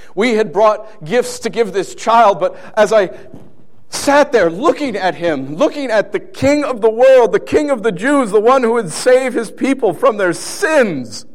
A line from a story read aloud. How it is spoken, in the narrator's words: I yelled as best as I could